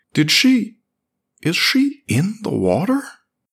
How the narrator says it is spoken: said Maine in a disbelieving voice

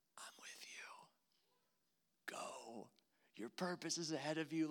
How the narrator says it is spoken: Jesus whisper

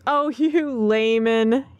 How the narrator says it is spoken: laughed

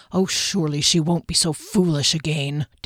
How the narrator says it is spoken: Derry said under his breath

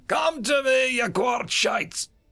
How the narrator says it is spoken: was now shouting

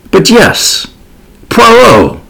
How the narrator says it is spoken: I cried

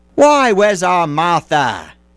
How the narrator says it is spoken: cried Bob Cratchit

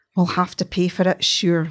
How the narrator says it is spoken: muttered Kate

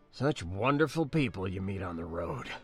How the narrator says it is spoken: muttered

